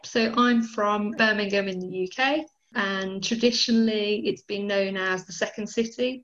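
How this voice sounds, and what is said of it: British accent. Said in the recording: “your accent, and we know that you're from the UK”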